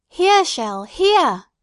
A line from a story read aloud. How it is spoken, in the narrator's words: she cried